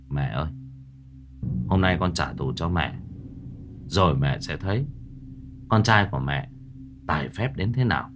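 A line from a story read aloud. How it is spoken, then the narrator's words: Sigh, then muttering. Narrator (Vietnamese): thầy thở dài một tiếng rồi lẩm bẩm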